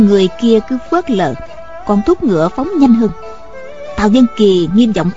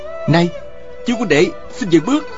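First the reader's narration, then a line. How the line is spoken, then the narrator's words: Raised voice calling. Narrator (Vietnamese): Tào Vân Kỳ cao giọng kêu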